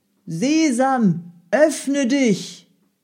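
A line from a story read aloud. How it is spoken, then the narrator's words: Spoken loudly. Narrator (German): Laut sprach er die Worte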